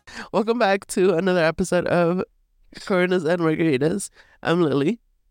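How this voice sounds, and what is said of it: Weird-sounding sick voice. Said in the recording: “my voice sounds weird, it's because I'm sick”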